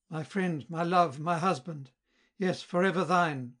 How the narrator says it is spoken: cried amid the warmest kisses

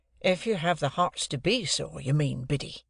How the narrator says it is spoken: said I, in a virtuous and superior tone

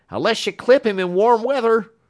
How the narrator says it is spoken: he shouted back

